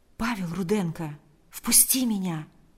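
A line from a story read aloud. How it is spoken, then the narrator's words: Very quiet. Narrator (Russian): ответил Павел очень тихо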